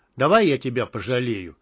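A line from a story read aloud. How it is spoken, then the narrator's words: Rough. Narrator (Russian): грубо сказал Мякиш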